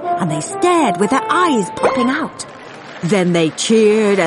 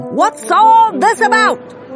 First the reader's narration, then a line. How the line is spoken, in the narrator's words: the people came shouting